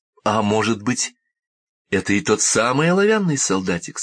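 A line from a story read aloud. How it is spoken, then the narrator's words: Plain. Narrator (Russian): сказала она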